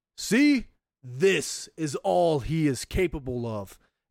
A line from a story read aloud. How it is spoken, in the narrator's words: bellows